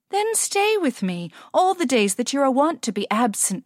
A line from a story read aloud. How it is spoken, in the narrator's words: pleaded